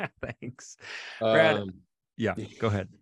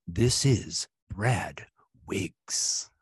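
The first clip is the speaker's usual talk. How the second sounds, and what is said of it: Announcer voice. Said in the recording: “That's a pretty good announcer voice.”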